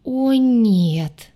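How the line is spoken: Groaning in unison. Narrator (Russian): Мы с Дваром в умилительном единстве застонали

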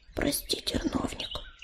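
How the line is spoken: Whisper. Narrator (Russian): прошептала

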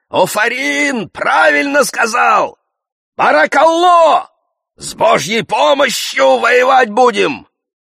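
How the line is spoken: Men shouting. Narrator (Russian): Мужики закричали

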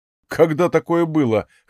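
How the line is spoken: Snorting. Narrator (Russian): хмыкнул я

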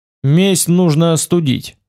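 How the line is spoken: Plain. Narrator (Russian): сказал я

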